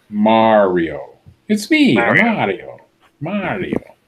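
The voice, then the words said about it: Good Mario character voice impression. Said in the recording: “Yeah, but he's with the impressions... That was a pretty good impression. Yeah, it was a good one.”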